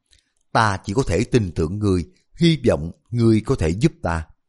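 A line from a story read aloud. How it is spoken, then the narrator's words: Sighing soft whisper. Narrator (Vietnamese): Tiêu Cầm thở dài một tiếng, nhẹ nhàng đè tai hắn nói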